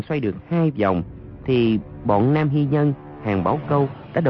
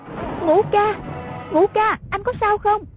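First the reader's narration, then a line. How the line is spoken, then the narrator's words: Anxious repeated calling. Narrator (Vietnamese): miệng cứ kêu lên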